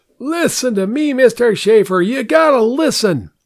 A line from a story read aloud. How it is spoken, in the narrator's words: He yelled